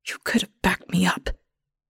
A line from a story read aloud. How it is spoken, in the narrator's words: Ethel whispers, but I barely hear her ghost voice